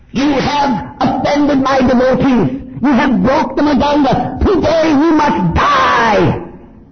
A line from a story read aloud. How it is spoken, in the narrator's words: He was roaring